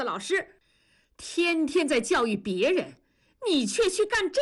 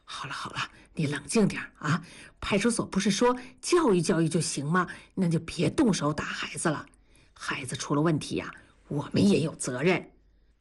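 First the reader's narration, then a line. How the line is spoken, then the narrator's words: Quiet, hushed. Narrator (Chinese): 同志小声的对文丽说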